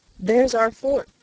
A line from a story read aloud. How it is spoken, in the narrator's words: cried